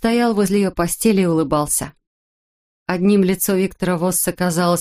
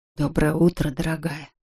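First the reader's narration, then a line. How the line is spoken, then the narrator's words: Whispering. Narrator (Russian): прошептал Виктор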